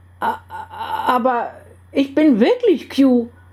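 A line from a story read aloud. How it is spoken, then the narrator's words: Flustered stammer. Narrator (German): stotterte der verdattert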